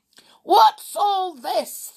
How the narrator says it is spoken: thundered Sooty's stepfather

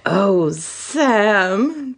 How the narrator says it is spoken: the brunette moaned

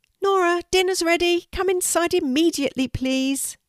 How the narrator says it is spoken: Nora's mum shouted

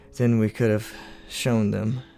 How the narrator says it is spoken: he sighed

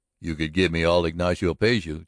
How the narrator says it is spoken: chuckled Engle

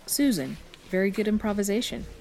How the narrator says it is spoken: the woman said

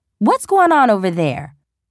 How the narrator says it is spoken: a woman yelled

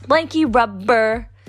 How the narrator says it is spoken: he yelled triumphantly

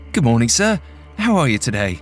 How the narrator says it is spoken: The boy laughed, with a voice that was deeper than Kabir expected

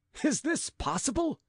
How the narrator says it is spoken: cried Gilbert, brightening

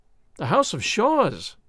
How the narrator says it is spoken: cried

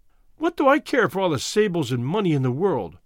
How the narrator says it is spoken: cried

